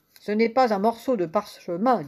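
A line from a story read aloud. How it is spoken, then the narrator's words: Plain. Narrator (French): dit-il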